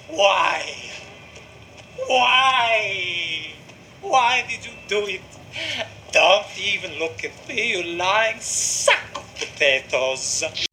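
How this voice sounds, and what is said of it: Comical exaggerated Italian accent impression. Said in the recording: “that is the perfect impersonation. It's a me, Paolo, and House of Gucci ... these comical, like, you know, Mario and Luigi accents”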